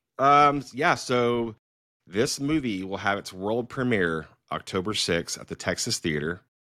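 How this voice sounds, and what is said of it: Announcer voice. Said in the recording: “I was using my announcer voice too.”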